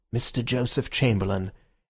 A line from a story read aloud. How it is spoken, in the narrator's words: From the doorway there came a murmur of